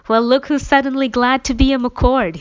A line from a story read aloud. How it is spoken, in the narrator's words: he laughed